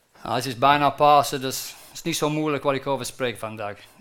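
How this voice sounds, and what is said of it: Very unusual accent. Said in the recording (Dutch): “Ik heb wel een heel raar accent, dus je moet twee keer zo goed opletten”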